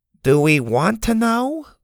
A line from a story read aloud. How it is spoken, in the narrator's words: Grandma said hesitantly